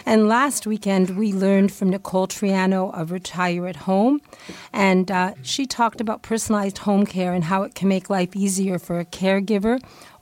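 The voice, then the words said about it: Hoarse, screechy recovering voice. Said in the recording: “excuse my voice. ... I actually have a voice today. Yesterday I had none, so I'm sorry for the screechiness, but I hope by next week to have my full voice back.”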